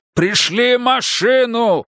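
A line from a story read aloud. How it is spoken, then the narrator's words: Shouting into phone. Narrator (Russian): прокричал Мунк в трубку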